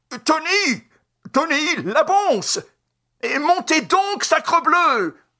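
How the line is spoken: Frantic yelling. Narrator (French): Il appelait, vociférait

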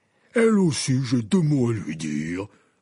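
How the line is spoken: Stern growl. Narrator (French): gronda Hagrid d'un air sévère

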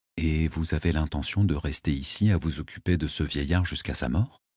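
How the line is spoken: Murmuring. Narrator (French): murmurai-je

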